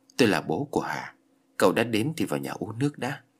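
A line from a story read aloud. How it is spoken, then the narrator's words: Sad man, sighing. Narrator (Vietnamese): Người đàn ông đó có vẻ mặt buồn bã, thở dài rồi nói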